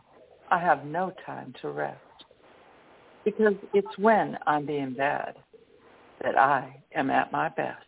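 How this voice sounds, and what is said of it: Southern drawl. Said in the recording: “the southern drawl that crept in towards the end”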